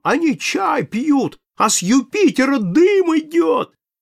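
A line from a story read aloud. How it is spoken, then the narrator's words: Shouting in womanish voice. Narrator (Russian): кричит бабьим голосом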